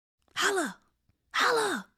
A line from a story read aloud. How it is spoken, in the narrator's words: whispered